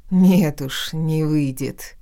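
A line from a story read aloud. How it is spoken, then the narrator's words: Man's wry snort. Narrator (Russian): хмыкнул этот невыносимый мужчина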